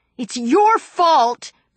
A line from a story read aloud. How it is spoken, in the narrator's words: Brittany cried